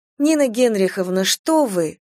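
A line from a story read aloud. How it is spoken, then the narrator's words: Sweet cooing. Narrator (Russian): умильно проворковала она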